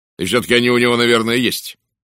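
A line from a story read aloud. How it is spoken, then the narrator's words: Sharp. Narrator (Russian): резко заметил Уэстон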